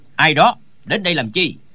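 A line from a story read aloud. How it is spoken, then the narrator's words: Sudden shouted question. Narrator (Vietnamese): Trong đám người bỗng có tiếng quát hỏi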